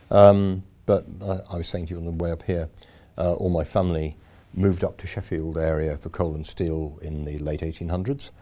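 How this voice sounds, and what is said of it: Slight Yorkshire accent. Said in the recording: “I'm a Yorkshireman. Um, there's a bit of accent left, I think. Um, it gets slightly worse when I'm back over there.”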